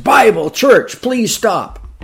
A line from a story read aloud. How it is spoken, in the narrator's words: desperately shouting the man